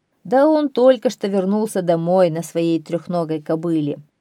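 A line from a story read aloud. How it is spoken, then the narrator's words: Laughing, speaking. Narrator (Russian): тот засмеялся и говорит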